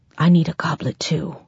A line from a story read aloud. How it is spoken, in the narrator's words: whispered